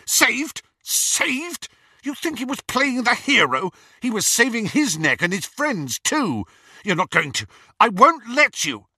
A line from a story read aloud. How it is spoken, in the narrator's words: Snape's whole face contorted, and he spluttered